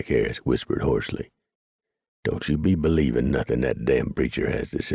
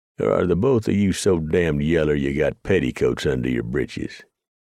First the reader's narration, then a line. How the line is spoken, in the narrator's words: The Kiowa chuckled